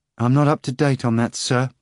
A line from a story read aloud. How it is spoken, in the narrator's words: interrupted sadly